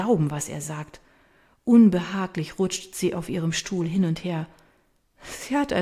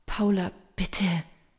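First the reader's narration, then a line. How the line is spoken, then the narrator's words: Softly pleading. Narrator (German): fleht Maria leise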